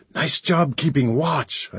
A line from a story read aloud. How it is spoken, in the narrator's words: I hissed